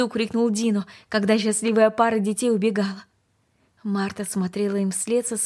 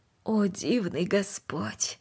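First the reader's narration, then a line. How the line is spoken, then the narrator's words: Quiet. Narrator (Russian): тихо произнесла она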